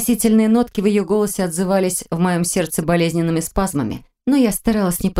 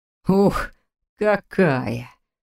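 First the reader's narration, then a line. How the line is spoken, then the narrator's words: Pleased smiling mutter. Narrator (Russian): пробормотал Фрай, довольно улыбаясь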